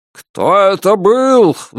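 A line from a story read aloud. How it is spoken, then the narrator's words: Roaring bellow. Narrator (Russian): взревел Альберт Гендрон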